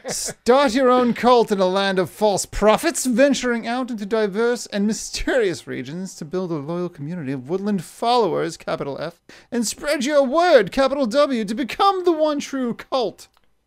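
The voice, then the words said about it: Fancy dad voice. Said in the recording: “See this fancy dad voice.”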